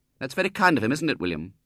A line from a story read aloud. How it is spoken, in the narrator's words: said Ethel rather sharply